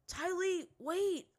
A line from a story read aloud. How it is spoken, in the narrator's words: Zuko shouted